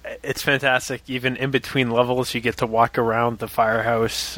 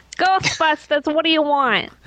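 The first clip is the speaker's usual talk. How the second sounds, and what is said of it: Put-on New York accent. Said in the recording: “That's my best New York accent... both of you guys just hurt my ears”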